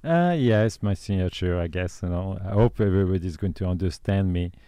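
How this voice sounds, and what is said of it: Beautiful foreign accent. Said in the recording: “that accent, it's so beautiful”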